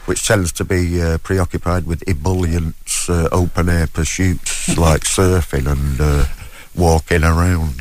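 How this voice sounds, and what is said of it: Manchester English accent. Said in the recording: “Is that the accent we're hearing, Manchester? ... Yeah, I'm from Manchester.”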